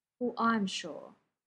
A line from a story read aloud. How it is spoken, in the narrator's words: Jim said firmly